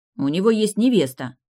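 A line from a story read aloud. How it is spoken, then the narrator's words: Angry remark. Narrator (Russian): зло заметила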